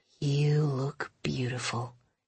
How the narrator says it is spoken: he sighed

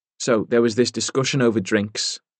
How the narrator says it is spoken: Jen Rafferty said

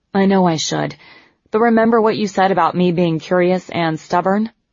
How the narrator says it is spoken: Eleanor sighed

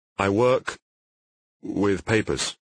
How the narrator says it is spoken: said, hesitantly

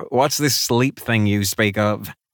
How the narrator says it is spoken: Cage chuckled

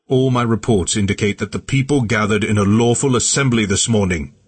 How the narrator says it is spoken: he attempted to shout over the tumult, but I only heard him because I was nearby

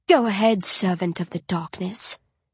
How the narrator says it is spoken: she hisses

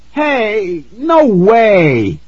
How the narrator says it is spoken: I cried

